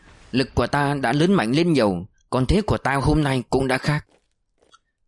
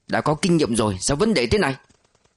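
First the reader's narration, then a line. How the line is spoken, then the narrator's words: Irritated grimacing snap. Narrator (Vietnamese): Ông Đào nhăn mặt gắt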